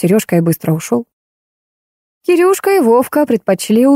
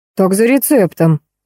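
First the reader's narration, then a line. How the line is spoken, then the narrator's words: Plain. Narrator (Russian): ответила Анька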